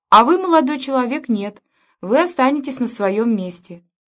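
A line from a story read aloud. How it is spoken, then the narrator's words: Exclamation. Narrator (Russian): она воскликнула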